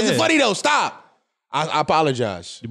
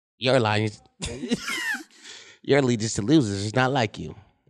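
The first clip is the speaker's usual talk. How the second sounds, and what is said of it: Imitates another person's voice. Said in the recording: “That's a pretty good Cat Williams voice.”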